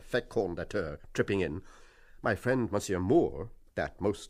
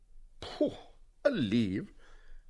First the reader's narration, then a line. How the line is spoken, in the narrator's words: cries Monsieur Lynch